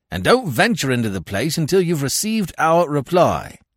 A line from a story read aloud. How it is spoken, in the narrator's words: Weymouth cried after me